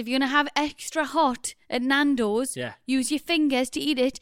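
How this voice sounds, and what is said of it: Put-on Northeast English fishwife accent. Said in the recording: “that exact Northeast fishwife accent that you just had going”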